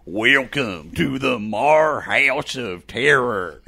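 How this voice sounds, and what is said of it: Exaggerated redneck accent. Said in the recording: “Your your your redneck accent is horrible ... I already have a redneck accent ... I'm trying to emphasize yours”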